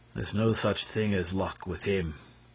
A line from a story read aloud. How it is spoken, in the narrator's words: declared the inspector, who always spoke of Lupin in a solemn tone